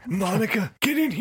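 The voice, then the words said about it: Imitates another person's voice, sounds parched. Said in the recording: “I need to work on my Bill Clinton impression ... You sound like Bill Clinton that needs a glass of water.”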